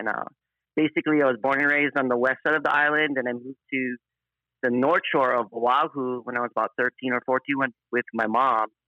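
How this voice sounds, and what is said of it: Hawaiian pidgin English accent. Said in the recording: “you probably can hear through my accent. ... I have kind of a pidgin accent. It's from Hawaii”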